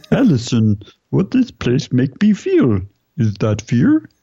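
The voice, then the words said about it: Cartoon character impression voice. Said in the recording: “Now he's Homer Simpson.”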